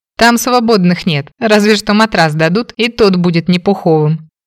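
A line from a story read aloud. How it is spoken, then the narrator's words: Brother laughing, mouth full. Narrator (Russian): рассмеялся братец, доедая мое яблоко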